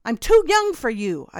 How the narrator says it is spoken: I blurted

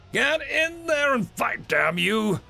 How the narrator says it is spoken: Aamaru roared, doing his best to imitate the human generals

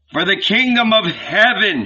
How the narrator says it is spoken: shouted Andrew

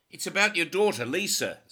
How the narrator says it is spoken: Zimmerman shouted

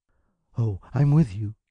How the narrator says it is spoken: she breathed

